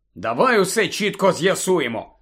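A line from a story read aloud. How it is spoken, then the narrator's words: Angry. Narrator (Ukrainian): сердито почав Гаррі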